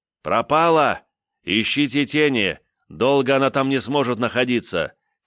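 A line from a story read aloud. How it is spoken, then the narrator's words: Shout. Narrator (Russian): крикнул я спутникам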